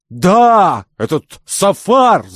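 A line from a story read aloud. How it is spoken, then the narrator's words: Excited shout. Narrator (Russian): закричал Кирабан, очень кстати наведенный племянником на новый след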